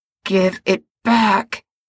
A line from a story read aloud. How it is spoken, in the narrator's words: he snarls